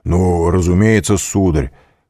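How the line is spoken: Loud. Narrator (Russian): прибавил громко

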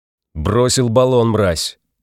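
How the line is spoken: Harsh bark. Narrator (Russian): рявкнул офицер Энис

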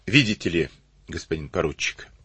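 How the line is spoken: Calm. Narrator (Russian): спокойно ответил он

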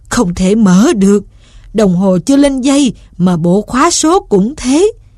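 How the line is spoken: Moaning. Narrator (Vietnamese): Ông rên rỉ

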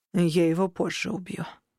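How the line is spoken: Grim promise. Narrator (Russian): пообещал я мрачно

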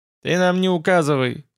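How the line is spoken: Stern. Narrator (Russian): сказал я строго

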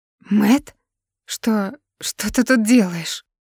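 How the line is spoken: Trembling voice. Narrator (Russian): Дрожащим голосом спрашивает Алана

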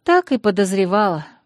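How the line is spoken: Sighing. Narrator (Russian): вздохнула я

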